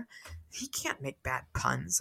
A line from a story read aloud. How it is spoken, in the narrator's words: muttered